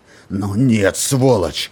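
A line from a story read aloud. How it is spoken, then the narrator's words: Roaring. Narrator (Russian): взревел Роланд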